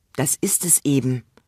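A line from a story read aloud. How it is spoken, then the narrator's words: Sad sigh. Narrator (German): seufzte der Kalif traurig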